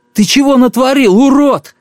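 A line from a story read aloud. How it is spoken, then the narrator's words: Shouting. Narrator (Russian): крикнул он то ли Мюллеру, то ли Федулу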